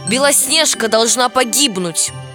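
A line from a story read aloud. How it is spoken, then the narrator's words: Shout. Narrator (Russian): крикнула она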